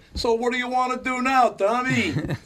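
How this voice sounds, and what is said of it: Put-on New York accent. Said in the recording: “when people get around other people with accents, they get the accent? ... When we lived in New York”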